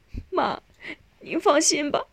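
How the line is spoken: Crying. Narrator (Chinese): 少英哭着说

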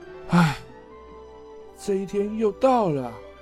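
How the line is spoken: Sighing. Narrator (Chinese): 哈利波特叹着气

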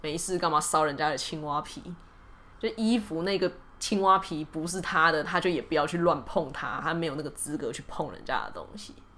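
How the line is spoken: Sighing old man. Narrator (Chinese): 老人听了之后就叹了一口气，就念了伊凡说

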